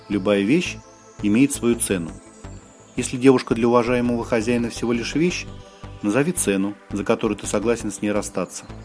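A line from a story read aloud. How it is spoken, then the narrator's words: Composed, calmer tone. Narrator (Russian): взял себя в руки и продолжил более спокойным тоном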